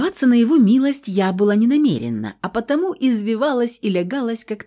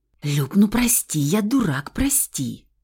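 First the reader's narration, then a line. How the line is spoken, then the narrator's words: Frantic, desperate whisper. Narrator (Russian): Шепот суматошный, отчаянный, будто Феникс боится, что не успеет чего-то сказать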